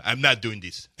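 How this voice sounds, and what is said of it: Put-on African accent. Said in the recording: “I like your accent there. ... That's a good African accent.”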